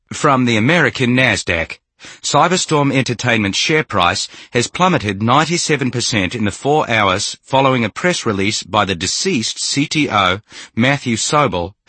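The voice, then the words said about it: Australian newscaster accent. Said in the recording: “The newscaster's Aussie accent came up.”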